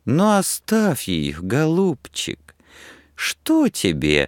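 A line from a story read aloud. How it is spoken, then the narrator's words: Sweet-voiced objection. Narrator (Russian): возразила сладким голосом Женя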